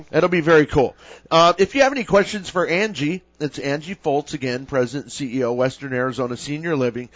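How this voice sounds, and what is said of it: Worn voice, sounds like a cold. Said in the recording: “my voice is it's a little worse for the wear... It sounds like I kind of have a cold or something... it's singing, four sets.”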